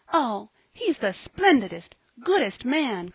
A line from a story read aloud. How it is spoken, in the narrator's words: cried Polly